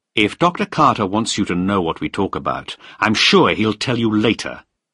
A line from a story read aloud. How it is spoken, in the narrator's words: I said sharply